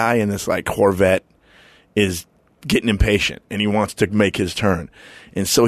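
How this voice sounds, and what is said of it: Usual voice. Nothing is said of it.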